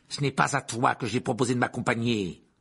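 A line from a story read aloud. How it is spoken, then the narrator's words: Growling. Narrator (French): gronda l'oncle Vernon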